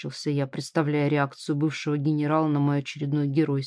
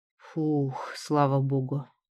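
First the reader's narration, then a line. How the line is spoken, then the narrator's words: Relieved exhale. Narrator (Russian): Облегченно выдохнул я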